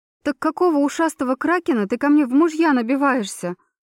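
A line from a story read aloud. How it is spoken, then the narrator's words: Emotional young woman exclaiming. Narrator (Russian): Эмоционально воскликнула девушка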